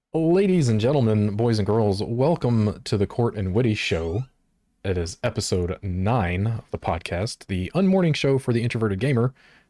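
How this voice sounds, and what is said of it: Announcer-style radio voice. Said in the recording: “You got the radio voice.”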